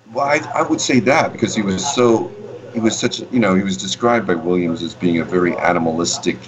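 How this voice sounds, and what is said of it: New York Queens accent. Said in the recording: “With the Brooklyn accent. ... Queens? What are you, Queens? ... Queens, yeah.”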